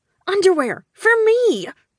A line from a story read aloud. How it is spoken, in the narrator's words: I screeched